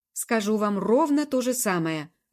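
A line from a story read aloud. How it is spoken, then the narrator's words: Snapping. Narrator (Russian): огрызнулся Хорас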